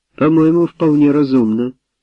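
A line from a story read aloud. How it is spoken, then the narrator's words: Plain. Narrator (Russian): сказала Мэри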